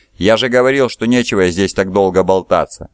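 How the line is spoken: Sharp, curt. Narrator (Russian): резко бросил Калофис

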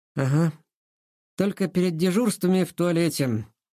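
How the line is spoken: Grumbled. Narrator (Russian): пробурчал Сашка

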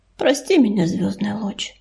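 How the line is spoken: Quiet. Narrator (Russian): тихо проговорил он

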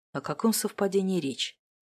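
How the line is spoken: Muttered. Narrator (Russian): пробормотал

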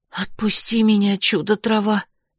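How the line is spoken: Shocked whisper. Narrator (Russian): потрясенно прошептала я

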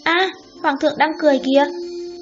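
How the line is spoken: Joyful exclamation. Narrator (Vietnamese): Vú em vui mừng kêu lên

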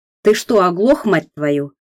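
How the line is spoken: Barked. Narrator (Russian): рявкнул Климов

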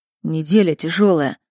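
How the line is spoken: Grumbling. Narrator (Russian): буркнул Сеня

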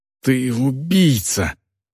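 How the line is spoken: Breathed out. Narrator (Russian): выдохнул Варк

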